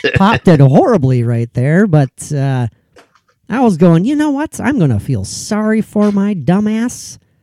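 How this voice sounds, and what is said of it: Nasal, whiny voice. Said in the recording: “my nasally, whiny voice”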